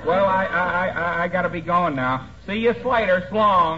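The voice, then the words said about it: Odd drawn-out slurred accent. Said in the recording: “Interesting accent that boy has, McGee. ... Seems to be suffering from hungover syllables.”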